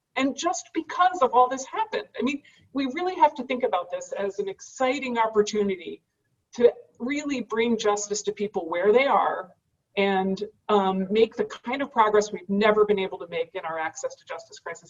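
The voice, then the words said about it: Excited, energetic speech. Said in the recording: “I sound excited, I'm a little bit excited.”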